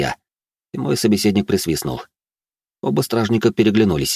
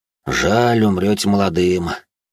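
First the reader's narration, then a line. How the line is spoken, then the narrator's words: Soldier, heavy sigh. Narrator (Russian): тяжело вздохнув, произнес служивый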